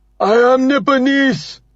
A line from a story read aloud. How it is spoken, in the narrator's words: shouts